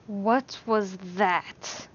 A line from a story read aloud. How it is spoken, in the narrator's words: Alan hissed